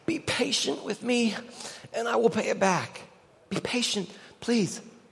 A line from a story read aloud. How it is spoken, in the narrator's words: His fellow servant begged him